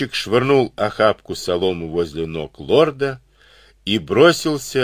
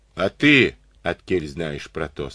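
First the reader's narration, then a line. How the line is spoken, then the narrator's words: Plain. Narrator (Russian): спросил Конопатый Егорыч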